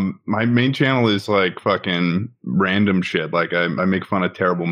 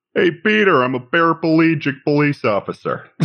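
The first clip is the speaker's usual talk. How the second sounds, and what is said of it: Family Guy Joe cartoon voice. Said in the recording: “I can do a pretty good Joe accent ... That's it. That's pretty good. That is literally it.”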